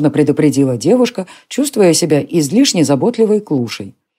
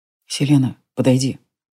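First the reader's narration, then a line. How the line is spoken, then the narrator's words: Whisper. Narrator (Russian): прошептал Джари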